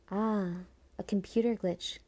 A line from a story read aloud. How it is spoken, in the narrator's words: breathed Iantha, clearly having no idea what she was saying